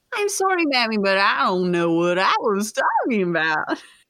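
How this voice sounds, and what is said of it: Put-on Kentucky accent. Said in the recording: “a smooth easing into a Kentucky”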